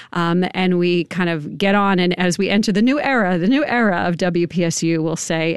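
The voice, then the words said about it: New York accent. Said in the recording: “my New York accent just kind of came out on that one, the new era”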